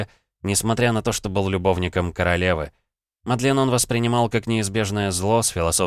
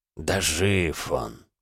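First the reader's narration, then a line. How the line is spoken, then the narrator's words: Grumbling reply. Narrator (Russian): проворчал в ответ покровитель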